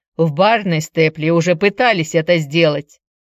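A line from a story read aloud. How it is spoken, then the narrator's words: Scoffing. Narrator (Russian): хмыкнул Дадли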